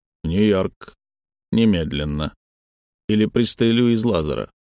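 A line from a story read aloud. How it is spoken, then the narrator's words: Grim, clear. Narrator (Russian): один из четверки людей Фута сказал мрачно и четко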